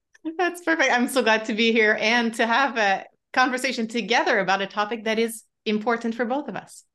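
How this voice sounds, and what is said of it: French-Canadian accent. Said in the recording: “hence the French accent ... it's a really interesting accent. So the French thing”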